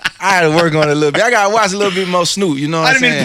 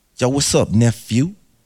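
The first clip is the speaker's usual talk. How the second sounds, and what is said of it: Imitates a rapper's laid-back voice. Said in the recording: “what would your Snoop Dogg audition voice be? ... I'm not the best impersonator, but I think I killed it.”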